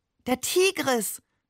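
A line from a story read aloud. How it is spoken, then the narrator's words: Delighted exclamation. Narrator (German): rief er entzückt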